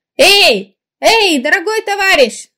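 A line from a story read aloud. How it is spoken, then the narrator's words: Shouting after someone. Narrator (Russian): закричал Чувячкин вслед комбайнеру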